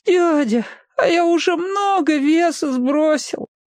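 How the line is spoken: Weak moaning question. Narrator (Russian): Петька слабо стонал и спрашивал

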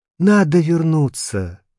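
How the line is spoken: Exclaimed. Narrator (Russian): воскликнул я

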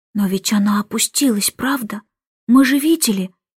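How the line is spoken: Whisper. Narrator (Russian): прошептал он

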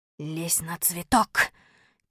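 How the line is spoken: Quiet whisper. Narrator (Russian): тихо шепнул я Малинину

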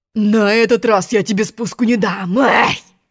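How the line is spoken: Growled, lion. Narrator (Russian): рыкнул лев

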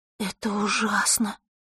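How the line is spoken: Breathed out. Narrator (Russian): выдохнула Василиса

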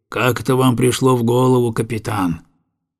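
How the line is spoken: Gloomy question. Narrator (Russian): он мрачно спросил

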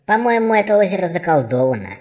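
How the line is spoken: Squeak. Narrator (Russian): пропищал Храброхвост

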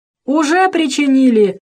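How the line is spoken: Loud guffaw. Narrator (Russian): захохотал кот в сапогах

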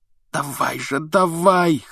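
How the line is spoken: Hoarse wheezing. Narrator (Russian): хрипел он

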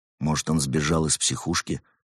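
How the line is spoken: Soft whisper, cat. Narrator (Russian): тихонько шепнул кот пингвину

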